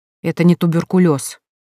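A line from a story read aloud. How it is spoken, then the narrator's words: Snapping retort. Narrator (Russian): огрызнулась Эля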